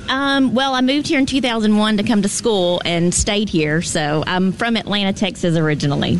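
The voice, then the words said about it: Southern country American accent. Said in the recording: “What kind of accent do you have? ... A country accent.”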